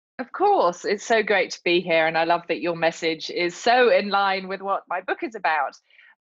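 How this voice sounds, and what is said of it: Beautiful accent. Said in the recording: “her beautiful accent”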